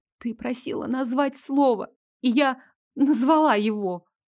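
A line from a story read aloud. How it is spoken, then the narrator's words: Small trembling voice. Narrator (Russian): Дрожащим голоском отозвалась я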